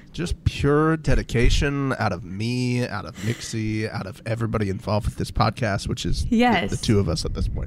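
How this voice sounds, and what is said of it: Raspy congested voice from cold. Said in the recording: “I got a little bit of cold and sniffles. I'm sure you can hear that through your earbuds. ... It's a good raspy. It's a good radio raspy.”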